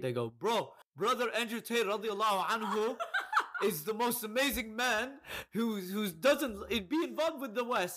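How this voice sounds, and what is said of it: Impression of an Arab man's voice. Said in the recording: “my impression of Arab men who are obsessed with Andrew Tate”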